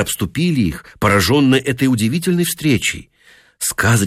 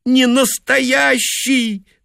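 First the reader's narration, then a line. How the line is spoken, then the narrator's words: Insisting through tears. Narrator (Russian): твердила она сквозь слезы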